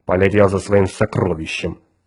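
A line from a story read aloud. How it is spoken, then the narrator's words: Gloomy. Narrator (Russian): мрачно ответил капитан Фьючер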